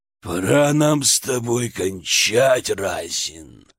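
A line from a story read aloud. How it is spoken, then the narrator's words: Growl. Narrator (Russian): прорычал Перун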